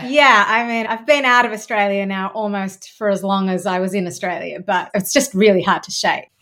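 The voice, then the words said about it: Australian accent. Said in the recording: “Is that the Aussie accent I can hear?”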